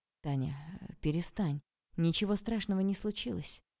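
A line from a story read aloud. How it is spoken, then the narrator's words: Quiet, bewildered. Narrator (Russian): негромко и растерянно сказал он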